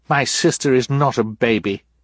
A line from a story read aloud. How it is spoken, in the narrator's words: Violet said firmly